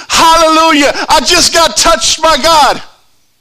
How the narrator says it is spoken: praising God, shouting

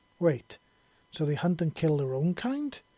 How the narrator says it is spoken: He exclaimed

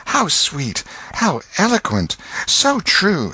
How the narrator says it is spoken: whispered ejaculations of

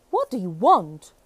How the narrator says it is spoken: the giant roared

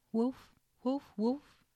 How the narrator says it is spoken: cried

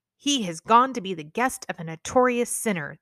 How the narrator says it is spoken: grumbled

